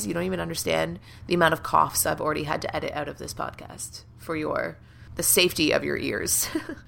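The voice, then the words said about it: Froggy, hoarse voice from cold. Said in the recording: “I am currently nursing a bit of a cold right now, so my voice is a little froggy today.”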